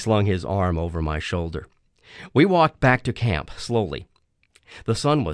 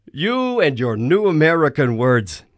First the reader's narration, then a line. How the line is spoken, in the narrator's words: he chuckled